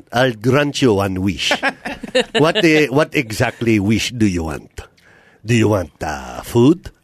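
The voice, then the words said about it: Genie character voice with accent. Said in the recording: “He's the only genie that has an accent.”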